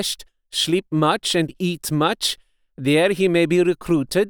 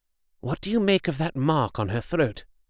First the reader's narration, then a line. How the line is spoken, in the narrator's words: I asked the professor, in a whisper